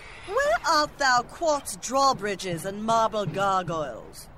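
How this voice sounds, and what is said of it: Mock old-fashioned architect character voice. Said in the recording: “my impression of a 12th century architect”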